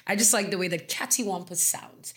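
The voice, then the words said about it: Put-on British accent. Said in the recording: “I don't know I'm saying in a British accent”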